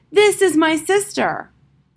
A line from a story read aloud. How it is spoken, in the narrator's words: he shouted